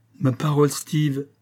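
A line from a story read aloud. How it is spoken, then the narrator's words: Laughing. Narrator (French): dit-il en riant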